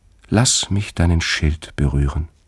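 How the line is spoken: Gentle. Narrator (German): sagte sie sanft

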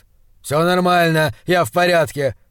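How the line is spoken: Grumble. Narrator (Russian): проворчал он

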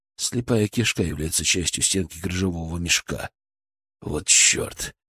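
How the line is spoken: Whispered curse. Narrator (Russian): выругался Лебедев шепотом

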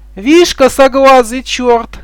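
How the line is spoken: Flattered woman speaking. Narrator (Russian): начала женщина, очевидно польщенная этим преследованием

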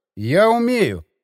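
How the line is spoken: Calm. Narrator (Russian): спокойно подтвердил телохранитель кондуктора

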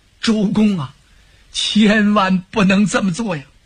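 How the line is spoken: Urgent, breathless. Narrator (Chinese): 急的，跑得他嘘嘘带喘

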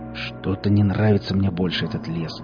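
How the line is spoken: Man muttering. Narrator (Russian): пробормотал он

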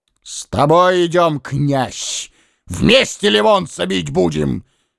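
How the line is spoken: Booming thunderous roar. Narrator (Russian): Громом раскатным рявкнул Муромец

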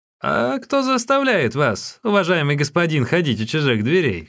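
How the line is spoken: Laughing shout. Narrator (Russian): крикнула она, смеясь

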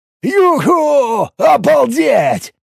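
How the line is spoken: Excited whooping. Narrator (Russian): завопил Боб, для которого сегодняшний поход был единственным и самым увлекательным его приключением в мерзлоте

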